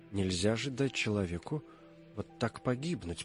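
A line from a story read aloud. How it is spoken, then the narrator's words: Reproachful undertone. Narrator (Russian): повторяла она вполголоса, сама не зная, кому посылает упрек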